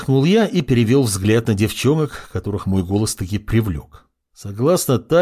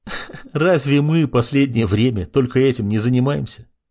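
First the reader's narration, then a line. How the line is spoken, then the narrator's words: Laughing. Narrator (Russian): засмеялась Исида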